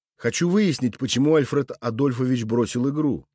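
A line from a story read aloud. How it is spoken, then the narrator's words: Official police tone. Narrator (Russian): полицейским тоном сообщил я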